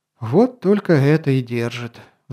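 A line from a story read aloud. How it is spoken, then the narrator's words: Sigh. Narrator (Russian): вздохнул Шуршан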